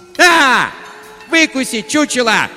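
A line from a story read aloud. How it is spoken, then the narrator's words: Screeching yell. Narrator (Russian): завопила она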